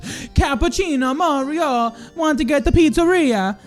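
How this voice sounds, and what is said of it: Put-on Italian accent. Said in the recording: “That sounds like my Italian accent.”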